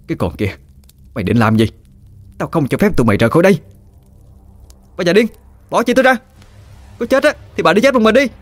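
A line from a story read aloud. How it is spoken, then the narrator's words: Furious shout. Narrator (Vietnamese): Bà Năm tức điên lên mà quát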